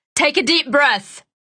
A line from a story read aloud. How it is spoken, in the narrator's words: he shouted